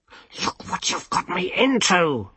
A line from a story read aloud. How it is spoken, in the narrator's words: Rincewind hissed